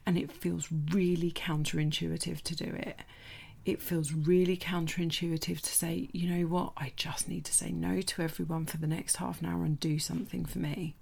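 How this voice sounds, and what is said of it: Quiet, whispered speech. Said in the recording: “it might sound like I'm whispering, because the boys aren't up yet”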